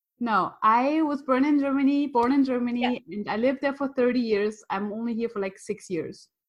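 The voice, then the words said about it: German accent. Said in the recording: “I love your accent. ... I'm German.”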